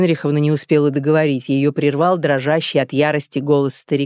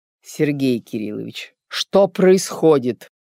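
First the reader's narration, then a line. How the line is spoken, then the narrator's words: Cold question. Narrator (Russian): Холодно поинтересовалась Евгения Генриховна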